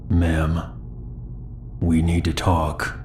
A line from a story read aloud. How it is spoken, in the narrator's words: He then spoke in a low, calm voice